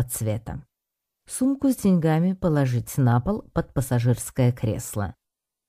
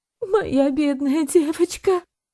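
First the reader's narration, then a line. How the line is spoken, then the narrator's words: Sobbing mutter. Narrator (Russian): всхлипывая, бормотала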